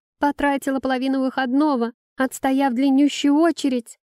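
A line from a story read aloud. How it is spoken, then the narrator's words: Tearful shout. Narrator (Russian): Размазывая слезы по красному лицу, крикнула девушка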